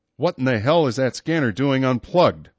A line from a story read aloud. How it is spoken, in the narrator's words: the StateSec captain snapped